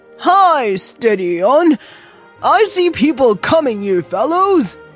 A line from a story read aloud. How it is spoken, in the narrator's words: Yells